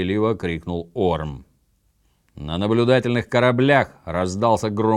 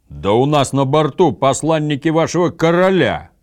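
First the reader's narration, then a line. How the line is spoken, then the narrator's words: Louder roar. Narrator (Russian): еще громче проревел Гудмунд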